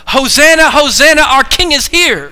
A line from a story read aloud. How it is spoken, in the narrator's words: shout